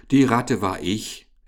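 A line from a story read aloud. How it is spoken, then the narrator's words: Laughing explanation. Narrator (German): erklärte aber Richard lachend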